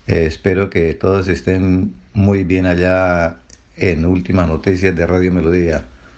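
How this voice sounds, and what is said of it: Deep polished broadcaster voice. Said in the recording (Spanish): “tiene voz de locutor.”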